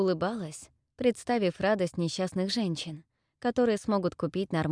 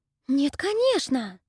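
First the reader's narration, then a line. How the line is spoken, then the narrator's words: Indignant whisper. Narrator (Russian): Возмущенно зашептала Салина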